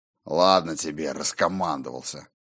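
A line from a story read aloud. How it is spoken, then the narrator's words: Good-natured grumble. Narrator (Russian): Пробурчал Скьёльд, но беззлобно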